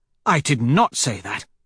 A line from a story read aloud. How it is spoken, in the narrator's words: the doctor snaps